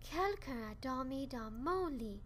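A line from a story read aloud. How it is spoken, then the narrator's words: Sighing mother bear. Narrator (French): a soupiré Maman Ours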